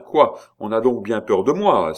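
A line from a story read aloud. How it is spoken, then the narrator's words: Exclaiming. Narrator (French): s'écria-t-il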